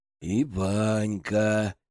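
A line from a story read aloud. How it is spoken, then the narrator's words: Dreamy, pleased drawl. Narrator (Russian): мечтательно с довольной рожей протянул Иван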